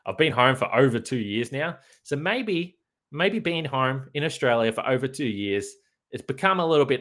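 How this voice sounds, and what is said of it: Thick Australian accent. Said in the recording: “my Australian accent has become too hard to understand ... Your Australian accent can be just a little bit thick”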